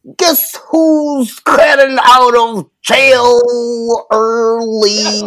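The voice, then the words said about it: Imitates another person's voice. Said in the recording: “my best Bill Cosby impression”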